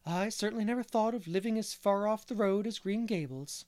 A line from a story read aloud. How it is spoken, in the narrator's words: sighed Mrs